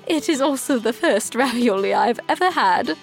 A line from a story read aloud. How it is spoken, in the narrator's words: the queen said as she chuckled with a piece of cheese hanging from her lips